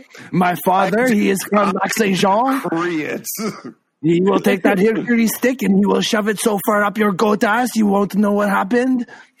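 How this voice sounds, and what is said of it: Exaggerated French Canadian accent. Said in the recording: “I am the French Canadian. My accent is the best accent in Canada.”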